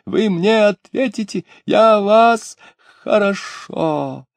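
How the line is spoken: Breathless shriek. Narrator (Russian): регент, задыхаясь, взвизгнул

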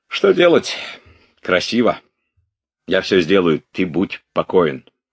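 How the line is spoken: Clipped, while typing. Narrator (Russian): говорил он отрывисто во время печатания

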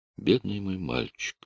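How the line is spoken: Whisper. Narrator (Russian): Она прошептала

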